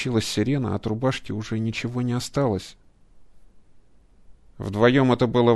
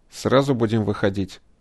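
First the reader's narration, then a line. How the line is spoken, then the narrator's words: Plain. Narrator (Russian): спросил кибернетик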